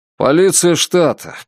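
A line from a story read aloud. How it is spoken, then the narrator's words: Muttering. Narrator (Russian): пробурчали там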